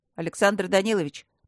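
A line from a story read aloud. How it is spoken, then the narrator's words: Deep bass reply. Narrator (Russian): пробасил в ответ Матвей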